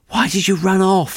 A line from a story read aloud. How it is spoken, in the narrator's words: panted